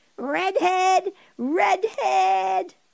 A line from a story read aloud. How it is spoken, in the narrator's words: all five boys screaming